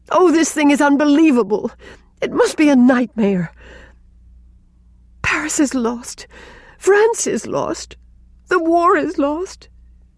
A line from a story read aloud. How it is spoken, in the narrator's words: gasped Rilla, amid the utter ruins of hope and confidence and belief